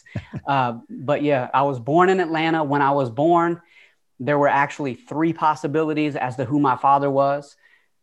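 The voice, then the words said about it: Southern American twang accent. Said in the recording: “I don't know if you can tell by the twang ... You could probably hear that Southern twang in my voice.”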